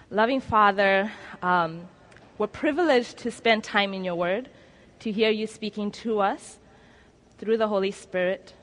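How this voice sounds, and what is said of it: Strong accent. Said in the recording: “the accent becomes more accentuated”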